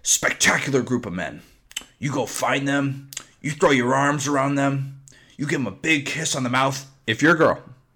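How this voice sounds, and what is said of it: Imitates another person's voice. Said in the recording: “hell of a less impersonation, by the way.”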